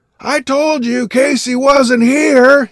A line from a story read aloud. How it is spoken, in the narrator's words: he bellowed cheerfully